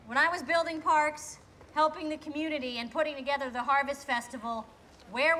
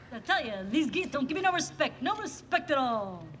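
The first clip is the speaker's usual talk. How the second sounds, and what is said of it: Rodney Dangerfield impression. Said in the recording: “does her Rodney Dangerfield impression”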